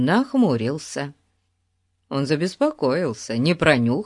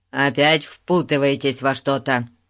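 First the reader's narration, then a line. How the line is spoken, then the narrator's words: Stern question. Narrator (Russian): строго спросил он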